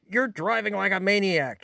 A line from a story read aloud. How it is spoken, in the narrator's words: he yells at me